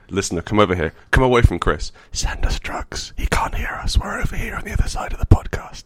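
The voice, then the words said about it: Whispering. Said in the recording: “What are you whispering about?”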